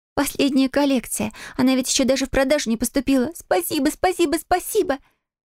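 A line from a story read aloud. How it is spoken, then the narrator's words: Squealing. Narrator (Russian): Фиона, взвизгнув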